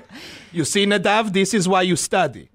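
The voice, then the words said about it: Put-on Israeli accent, yelled. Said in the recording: “The Israeli? ... Do his accent, though. ... He'd yell it. ... Do his accent.”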